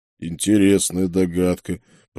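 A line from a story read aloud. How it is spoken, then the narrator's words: Booming rumble. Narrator (Russian): прогудел монах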